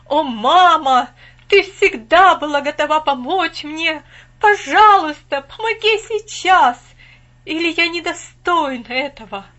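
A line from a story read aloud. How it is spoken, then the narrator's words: Loud remorseful cry. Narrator (Russian): когда от раскаяния я не мог уснуть, я громко закричал в небо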